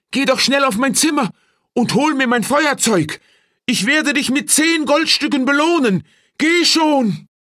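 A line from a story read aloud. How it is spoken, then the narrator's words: Calling out to him. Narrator (German): rief ihm zu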